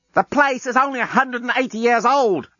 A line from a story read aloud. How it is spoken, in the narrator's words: Lucy shouted back down